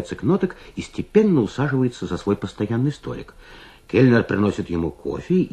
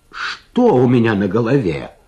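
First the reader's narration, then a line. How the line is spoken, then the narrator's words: Exclaimed. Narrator (Russian): воскликнул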